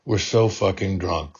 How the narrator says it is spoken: the hostess slurred into the pillow

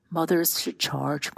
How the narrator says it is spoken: Quentin said, yawning

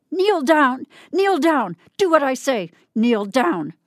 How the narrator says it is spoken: he heard her screaming at him

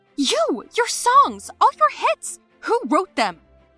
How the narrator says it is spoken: I yelled

